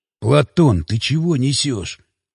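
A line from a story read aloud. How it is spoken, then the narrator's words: Hissed. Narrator (Russian): прошипел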